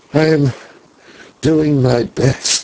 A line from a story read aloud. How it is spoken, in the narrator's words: he answered feebly